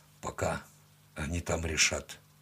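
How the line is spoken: Muttered. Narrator (Russian): пробормотал он

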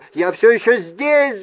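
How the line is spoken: Yelling. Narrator (Russian): заорал

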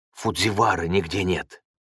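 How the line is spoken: Quiet voice. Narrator (Russian): сказал он тихим голосом

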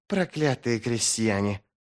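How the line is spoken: Hissed. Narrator (Russian): прошипел Сульт

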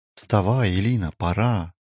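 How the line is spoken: Whisper. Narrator (Russian): прошептал

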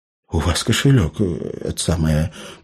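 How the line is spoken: Mumbled. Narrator (Russian): промямлил эльф

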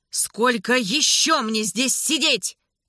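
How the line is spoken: Shouting. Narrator (Russian): прокричал он

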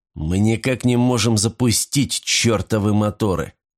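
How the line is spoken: Determined, through gritted teeth. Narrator (Russian): он решительно нахмурился и процедил

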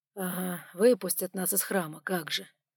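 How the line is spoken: Grumbling. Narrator (Russian): проворчал сумрак

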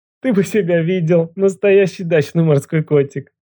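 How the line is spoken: Forced out through laughter. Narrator (Russian): Сквозь смех выдавила она

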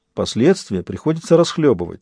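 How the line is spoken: Calm explanation. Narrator (Russian): спокойно пояснил Джек

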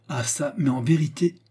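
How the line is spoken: Muffled anger exclaiming. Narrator (French): s'écria Philippe avec une sourde colère

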